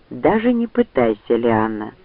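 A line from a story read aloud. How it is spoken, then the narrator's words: Calm. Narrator (Russian): спокойно сказал Ранд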